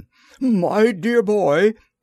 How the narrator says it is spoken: he exclaimed

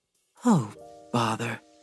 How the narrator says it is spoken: Glampus muttered

